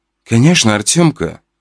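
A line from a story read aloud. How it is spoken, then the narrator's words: Gentle. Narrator (Russian): ласково сказала она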